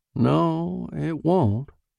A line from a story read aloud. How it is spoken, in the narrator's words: said Nibley, sadly